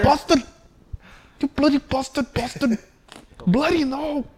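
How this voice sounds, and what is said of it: Put-on foreign accent, mock swearing. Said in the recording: “I woke up and I have this accent.”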